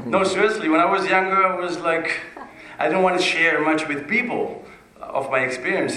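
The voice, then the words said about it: Speaks English with an accent. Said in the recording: “the dude that speaks with the accent”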